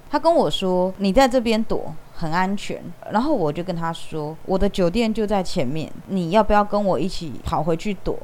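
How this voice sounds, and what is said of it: Taiwanese Mandarin accent. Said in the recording (Chinese): “他听我的口音，他知道我是台湾人哦”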